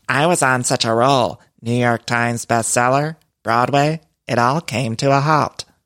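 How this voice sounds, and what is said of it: Higher-pitched, flat imitated voice. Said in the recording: “I feel like it's higher pitched and a little bit flat ... my Erika Jayne impression is terrible”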